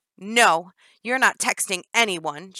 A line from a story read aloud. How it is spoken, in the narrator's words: Jennifer growled back